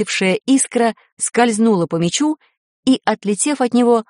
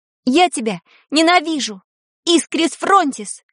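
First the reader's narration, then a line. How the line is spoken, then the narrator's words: Full-voice shout. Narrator (Russian): крикнула во весь голос Таня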